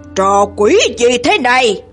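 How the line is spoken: Growling. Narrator (Vietnamese): hắn gầm gừ

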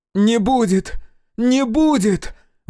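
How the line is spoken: Exclaimed. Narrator (Russian): воскликнула Акулина

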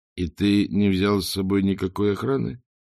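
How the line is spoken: Mutter. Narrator (Russian): пробормотал Ринсвинд

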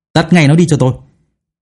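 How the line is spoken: Urgent, almost shouting. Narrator (Vietnamese): Tiêu Vọng nói gấp như hét lên

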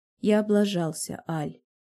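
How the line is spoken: Slow, in the ear. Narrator (Russian): медленно говорит Дэн мне на ухо

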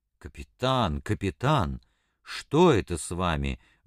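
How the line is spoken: Exclaimed, almost frightened. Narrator (Russian): воскликнул Щевинский почти в испуге

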